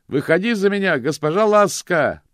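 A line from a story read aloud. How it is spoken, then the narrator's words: Shouted. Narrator (Russian): прокричал он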